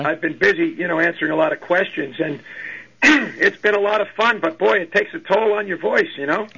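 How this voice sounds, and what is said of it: Slightly hoarse voice. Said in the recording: “I've been on the phone all day, so I'm a little hoarse”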